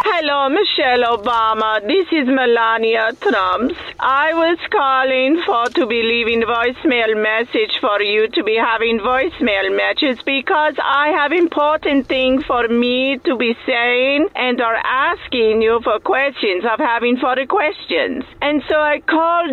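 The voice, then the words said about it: Eastern European accent, Melania Trump impression. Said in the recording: “she's got that. What is that accent? She's from where? ... Somewhere Eastern European.”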